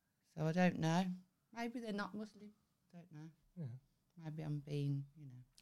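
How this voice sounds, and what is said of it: Usual voice. Nothing is said of it.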